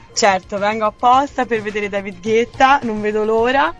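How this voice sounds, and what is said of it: Tuscan Italian accent. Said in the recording (Italian): “Un po' si sente. ... L'accento toscano.”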